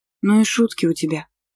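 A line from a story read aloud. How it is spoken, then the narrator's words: Muttering. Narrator (Russian): пробормотала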